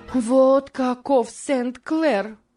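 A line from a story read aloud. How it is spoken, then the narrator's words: Exclaiming. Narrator (Russian): воскликнула Морис, как только исчез виновник ее гнева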